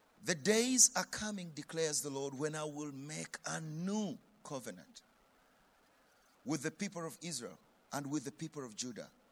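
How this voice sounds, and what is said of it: African English accent. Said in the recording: “You will follow the African accent as I read.”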